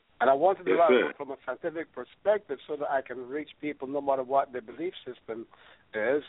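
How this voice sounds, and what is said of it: Voice affected by a cold. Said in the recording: “I have a little cold ... I have a little cough that I'm recovering from”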